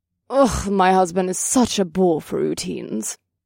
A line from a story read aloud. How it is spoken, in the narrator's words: grumbled